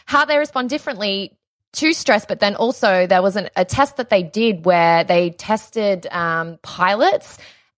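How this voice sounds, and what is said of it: Australian accent. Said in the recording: “that sounds the same with my accent. That's hard in Australian ... I'm saying in an Australian accent”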